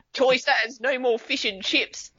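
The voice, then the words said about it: Put-on New Zealand Kiwi accent. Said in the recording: “give us a Kiwi accent ... That was really good, man. ... It was Kiwi. ... I thought he actually did a good job. ... It sounds British, though.”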